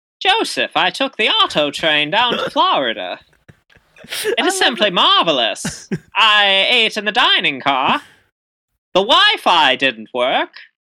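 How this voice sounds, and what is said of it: Put-on mid-Atlantic accent. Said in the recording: “Can we roll that back again with like a mid-Atlantic accent? Because I feel like this is something I would hear like during that time.”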